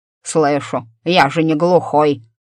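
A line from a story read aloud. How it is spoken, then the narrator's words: Grumbling. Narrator (Russian): проворчал тот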